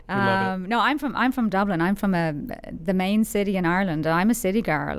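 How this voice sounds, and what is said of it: Irish accent. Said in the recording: “that fantastic accent ... I haven't lost my accent”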